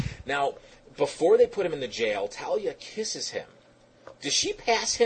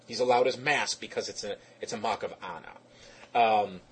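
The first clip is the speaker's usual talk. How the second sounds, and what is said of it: Poorly done put-on accent. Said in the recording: “I know I'm way off on the accent. I just had to try.”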